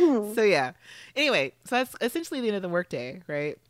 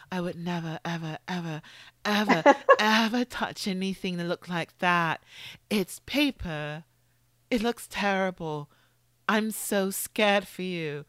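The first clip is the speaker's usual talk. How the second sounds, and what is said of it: Soft, slow, delayed imitated voice. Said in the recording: “That was a great impression. ... I enjoy Oliver's voice so much. ... Soft tone and a little delayed, very slowly, a little softly.”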